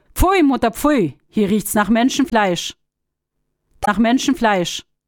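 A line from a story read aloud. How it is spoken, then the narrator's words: Calling out at once. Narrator (German): Die Sonne rief sogleich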